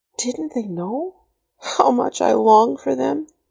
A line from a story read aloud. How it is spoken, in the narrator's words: Karen whispered bitterly